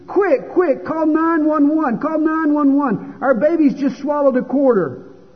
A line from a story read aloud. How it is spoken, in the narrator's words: She screamed to the father in the other room